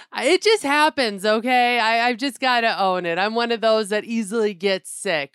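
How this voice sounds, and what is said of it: Raspy, sick-sounding voice. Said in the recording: “Somebody sounds like they got the crud a little bit. ... my voice is a little raspy”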